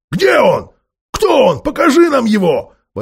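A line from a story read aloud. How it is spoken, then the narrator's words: Shouting in unison. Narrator (Russian): в один голос закричали гномы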